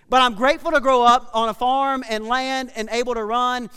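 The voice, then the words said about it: Country accent. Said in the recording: “I'm grateful to grow up being a farm slash country kid ... my accent gives me away”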